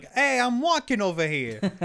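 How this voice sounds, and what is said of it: New York Italian-influenced accent. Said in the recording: “the Northeast and, like, New York and Boston, it's, like, very Italian-influenced”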